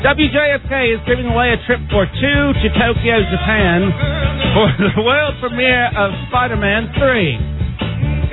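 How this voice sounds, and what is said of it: Put-on British accent. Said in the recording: “I'm gonna speak in my British voice.”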